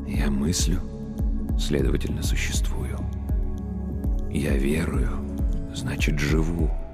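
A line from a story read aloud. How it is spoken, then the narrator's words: Whispering priest. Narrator (Russian): прошептал священник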